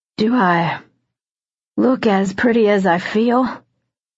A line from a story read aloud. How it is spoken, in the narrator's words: His words were slurred